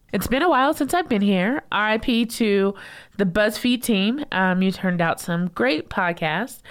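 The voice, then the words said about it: Slightly sick, congested voice. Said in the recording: “I've had a bad cold this past week, but I'm surviving. So I might sound a little bit sick ... I sound different”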